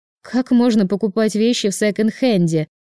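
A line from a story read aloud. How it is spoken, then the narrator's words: Disgusted snort. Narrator (Russian): С отвращением фыркнула Аня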